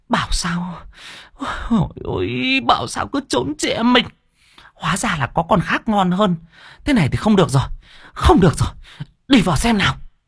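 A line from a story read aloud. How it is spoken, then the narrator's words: Hissing through teeth. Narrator (Vietnamese): Cô Hồng rít qua kẽ răng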